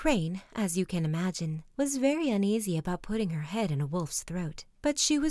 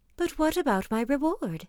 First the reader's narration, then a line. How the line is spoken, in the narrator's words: called the crane anxiously